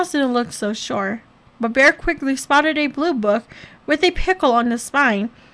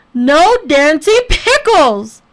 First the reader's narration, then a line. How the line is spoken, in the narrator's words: Bear roared